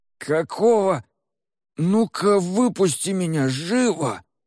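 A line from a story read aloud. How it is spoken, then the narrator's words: Wheezed hoarsely. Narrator (Russian): прохрипел он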